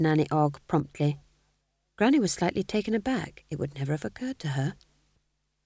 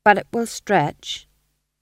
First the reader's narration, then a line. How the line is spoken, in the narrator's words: said his wife firmly